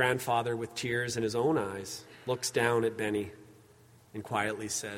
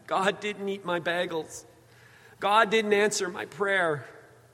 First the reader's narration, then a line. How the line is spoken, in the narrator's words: Benny buries his head into his grandpa's coat and cries